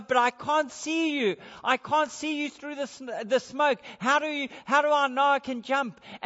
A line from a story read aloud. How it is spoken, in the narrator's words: the boy cried out from above